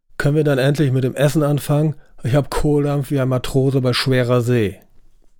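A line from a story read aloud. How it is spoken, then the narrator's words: Booming, gruff. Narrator (German): polterte Raymond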